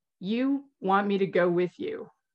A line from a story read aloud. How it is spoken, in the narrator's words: guesses slowly